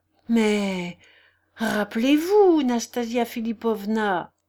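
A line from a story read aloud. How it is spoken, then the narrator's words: Stammering. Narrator (French): balbutia Totski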